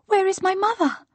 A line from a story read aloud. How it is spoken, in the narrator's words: cried the child